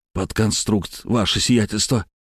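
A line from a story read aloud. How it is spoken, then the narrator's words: Wheezy request. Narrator (Russian): сипло попросил его я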